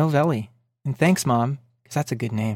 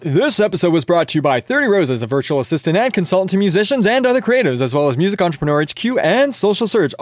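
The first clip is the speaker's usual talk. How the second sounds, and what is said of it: Announcer-style podcast voice. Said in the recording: “Here comes my podcast voice. ... I trained a little Rick Barker and Alan Cross in there. ... it needs some work”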